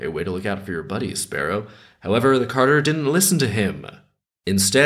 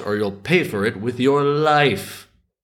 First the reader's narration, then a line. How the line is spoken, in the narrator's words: the sparrow cried out